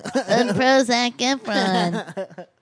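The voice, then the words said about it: Mock impression of Tommy McNamara. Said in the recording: “doing an impression of Nick Nanny's impression of me”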